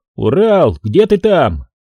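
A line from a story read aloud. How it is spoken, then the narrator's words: Shouted. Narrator (Russian): крикнул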